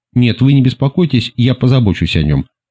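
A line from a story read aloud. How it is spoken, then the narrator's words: Plain. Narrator (Russian): сказала мисс Уэст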